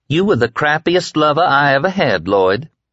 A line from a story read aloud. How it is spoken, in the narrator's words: she said sweetly